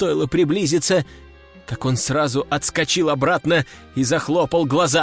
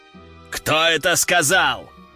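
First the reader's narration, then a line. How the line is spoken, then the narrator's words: Growl. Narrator (Russian): рыкнул граф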